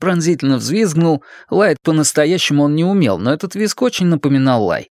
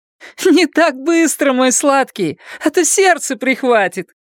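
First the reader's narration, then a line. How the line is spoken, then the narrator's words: Shouting while laughing. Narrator (Russian): крикнула, смеясь, Сюзанна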